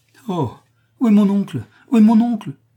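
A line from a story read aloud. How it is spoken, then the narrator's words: Exclaiming. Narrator (French): s'écria Elisabeth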